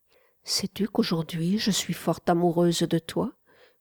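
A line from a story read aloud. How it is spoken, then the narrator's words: Whisper. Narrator (French): chuchota-t-elle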